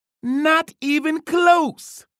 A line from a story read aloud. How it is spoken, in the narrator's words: yelped